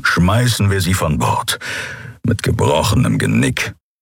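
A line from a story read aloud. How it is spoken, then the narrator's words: Gruff grumble. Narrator (German): brummte Keru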